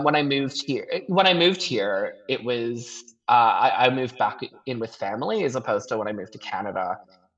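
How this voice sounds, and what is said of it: Non-Australian accent. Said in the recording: “despite my accent ... my accent has never reflected that”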